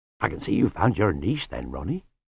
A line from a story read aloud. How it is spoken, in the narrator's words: said Lutzer soothingly